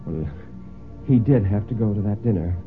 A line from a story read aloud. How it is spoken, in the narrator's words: Mary said rather feebly